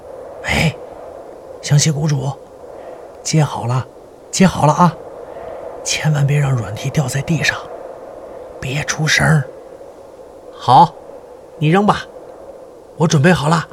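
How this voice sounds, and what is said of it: Quiet, hushed calling voice. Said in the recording (Chinese): “小声地叫湘西谷主”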